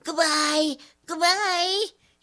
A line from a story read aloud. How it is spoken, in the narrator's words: she yelled, as though she were going to Africa